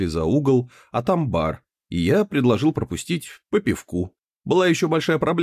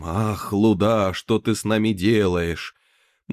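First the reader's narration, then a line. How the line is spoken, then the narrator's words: Languid voice. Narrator (Russian): приговаривая томным голосом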